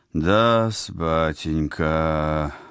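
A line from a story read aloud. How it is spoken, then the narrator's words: Concerned doctorly drawl. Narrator (Russian): озабоченным тоном средневекового эскулапа протянул Вениамин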